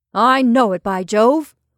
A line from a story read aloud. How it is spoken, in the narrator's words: cried Henderson in quick contriteness